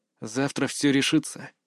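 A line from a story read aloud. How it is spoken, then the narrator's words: Quiet. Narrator (Russian): тихо произнес я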